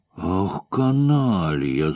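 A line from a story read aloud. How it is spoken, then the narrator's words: Snarling. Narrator (Russian): зарычал ван Штиллер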